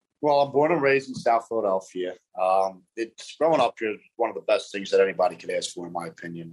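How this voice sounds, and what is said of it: Strong Philly / New York-style accent. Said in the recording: “your accent is like perfect... is it Philly because it's like it's not as ugly as like a Boston accent... it's like classy... it's not quite a South Philly accent. It's not quite a New York New York accent... everybody uh, always asks me if I'm from New York with my accent... They think I'm from Brooklyn”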